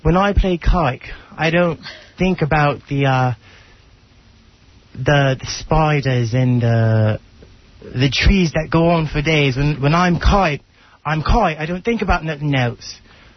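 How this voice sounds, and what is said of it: Put-on Cockney English accent. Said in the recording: “Give me some of that English accent ... I got to do it with the Cockney accent ... Cockney.”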